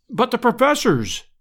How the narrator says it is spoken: cried, in consternation

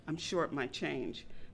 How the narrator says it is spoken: quietly said

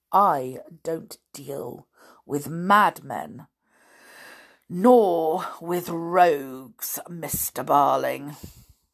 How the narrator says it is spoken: said scornfully

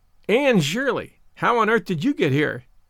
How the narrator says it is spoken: exclaimed

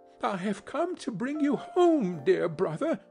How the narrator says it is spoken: said the child, clapping her tiny hands and bending down to laugh

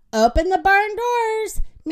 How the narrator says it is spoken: Minnie yelled

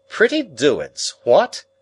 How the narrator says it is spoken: he cried

